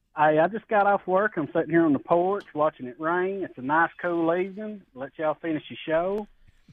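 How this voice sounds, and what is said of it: Southern twang accent. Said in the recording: “Got a little extra twang today there”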